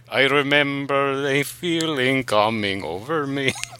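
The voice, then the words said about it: Sung in a Russian accent. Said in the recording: “You could sing in a Russian accent? That was honestly impressive. ... That was perfect, though.”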